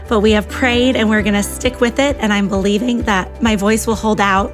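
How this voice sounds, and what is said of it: Hoarse, strained voice. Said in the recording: “I am losing my voice”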